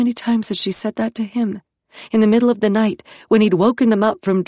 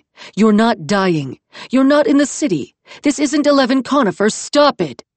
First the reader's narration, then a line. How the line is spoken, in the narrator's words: Iskander said, as loud in her mind as if he'd been next to her and shouting